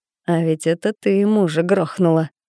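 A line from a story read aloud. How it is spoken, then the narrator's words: Short nasty chuckle. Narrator (Russian): коротко хохотнул мерзавец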